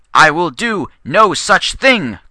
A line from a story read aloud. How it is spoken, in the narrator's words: Constance cried